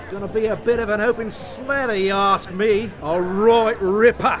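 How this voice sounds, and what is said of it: Put-on Australian accent. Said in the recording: “An Australian accent is all I can really do. ... Who the hell gave you the idea you could do that?”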